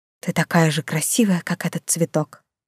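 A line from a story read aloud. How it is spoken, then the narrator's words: Whispered. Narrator (Russian): герцог … прошептав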